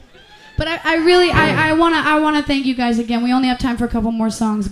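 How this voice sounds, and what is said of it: Fake Southern American accent. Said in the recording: “I put on a fake southern accent ... I say y'all and things like that.”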